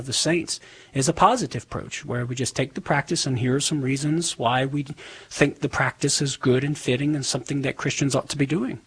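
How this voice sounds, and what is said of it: Southern American accent. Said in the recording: “making fun of my southern accent”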